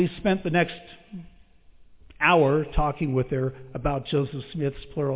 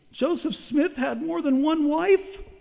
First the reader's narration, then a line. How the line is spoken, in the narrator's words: she asked in a weak voice